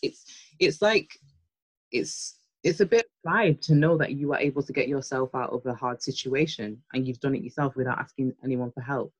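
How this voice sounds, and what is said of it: Northern English accent. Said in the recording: “I'm hearing like a Northern accent”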